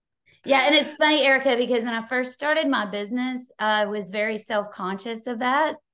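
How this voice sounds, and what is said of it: Slight Texas accent. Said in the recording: “you may be picking up a hint of an accent. ... I knew you had Texas.”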